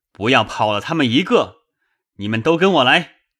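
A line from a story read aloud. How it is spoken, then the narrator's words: Shouting. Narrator (Chinese): 那人喊说道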